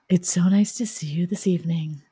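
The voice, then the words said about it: Smooth public-radio announcer voice. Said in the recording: “you're using your NPR voice.”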